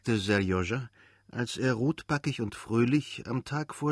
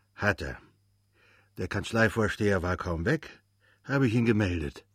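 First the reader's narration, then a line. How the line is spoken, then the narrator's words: Cheerful. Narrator (German): sagte der Portier und zwinkerte fröhlich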